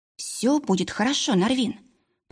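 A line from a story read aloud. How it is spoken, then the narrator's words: Whisper. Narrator (Russian): прошептала я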